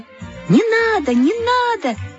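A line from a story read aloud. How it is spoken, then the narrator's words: Crowd shouting. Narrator (Russian): закричали все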